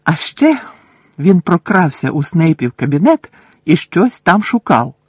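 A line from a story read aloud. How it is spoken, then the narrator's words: Triumphant exclamation. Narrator (Ukrainian): з тріумфом вигукнув Рон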